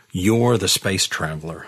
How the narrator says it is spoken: I said bitterly

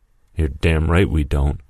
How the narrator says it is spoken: Mason said

